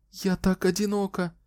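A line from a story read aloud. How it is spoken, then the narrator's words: Frightened, repeating. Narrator (Russian): испуганно повторяла она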